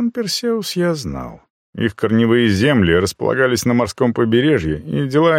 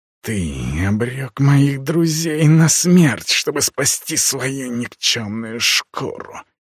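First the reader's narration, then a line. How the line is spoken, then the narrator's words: Hissed. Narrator (Russian): прошипел марак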